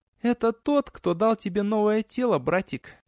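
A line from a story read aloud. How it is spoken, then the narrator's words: Cooing. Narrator (Russian): проворковала Биота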